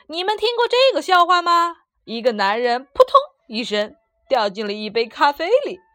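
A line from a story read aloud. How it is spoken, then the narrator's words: Loud clamor. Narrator (Chinese): 托托大声嚷道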